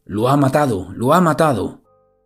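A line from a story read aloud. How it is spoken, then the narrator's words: Panicked shouting. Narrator (Spanish): entra en pánico y comienza a correr por la calle gritando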